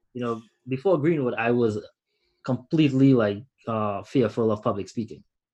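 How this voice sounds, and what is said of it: Strong foreign accent. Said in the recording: “I still sound like I just got off the boat yesterday. That's how strong my accent is”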